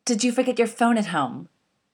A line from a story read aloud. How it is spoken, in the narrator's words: barks as soon as the door is shut